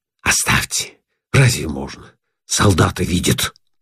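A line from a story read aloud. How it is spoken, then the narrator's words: Whisper. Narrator (Russian): Шепотом говорит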